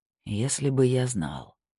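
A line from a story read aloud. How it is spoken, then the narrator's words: Mumbled. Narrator (Russian): пробормотал Снейдер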